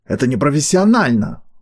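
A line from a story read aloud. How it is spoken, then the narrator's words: Indignant bark. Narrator (Russian): возмущенно рявкнул Полторак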